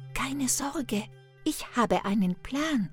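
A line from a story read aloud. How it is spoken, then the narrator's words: Whisper. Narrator (German): flüsterte Hänsel Gretel zu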